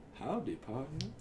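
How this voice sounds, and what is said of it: Cowboy voice. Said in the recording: “do the cowboy voice”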